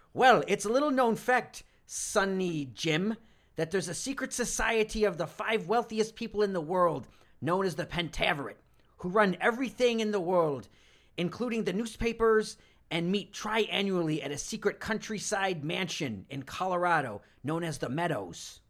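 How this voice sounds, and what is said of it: Over-the-top fake Scottish accent. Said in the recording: “With your greatest Scottish accent, please. ... Just terrible over-the-top accent,”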